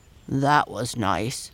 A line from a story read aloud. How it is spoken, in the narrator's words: murmured Dido